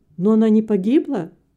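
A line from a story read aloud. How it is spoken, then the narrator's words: Exclamation. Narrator (Russian): воскликнул Вилли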